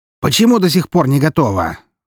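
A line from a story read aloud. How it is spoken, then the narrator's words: Shouting. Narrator (Russian): закричал шеф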